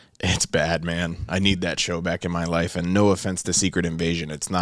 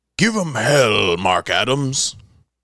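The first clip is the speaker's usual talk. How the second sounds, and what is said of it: Imitates a character's voice. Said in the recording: “That's my best Sulla impression. ... Chills. No, that was good.”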